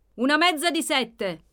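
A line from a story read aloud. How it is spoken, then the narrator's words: Innkeeper calling to kitchen. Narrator (Italian): gridò l'oste verso la cucina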